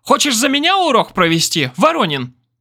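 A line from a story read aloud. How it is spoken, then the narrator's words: Shrill shriek. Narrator (Russian): взвизгнула она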